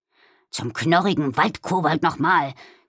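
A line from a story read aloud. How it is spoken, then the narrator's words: Growled. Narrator (German): knurrte Balduin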